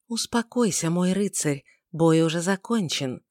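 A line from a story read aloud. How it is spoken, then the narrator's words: Soft whisper. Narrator (Russian): мягкий шепот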